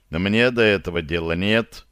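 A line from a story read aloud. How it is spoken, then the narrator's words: Gruff mutter. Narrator (Russian): буркнул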